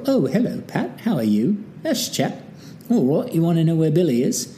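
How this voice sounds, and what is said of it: Put-on cultured refined British accent. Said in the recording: “I just wanted to be very cultured and refined. I think that might be a Cockney accent.”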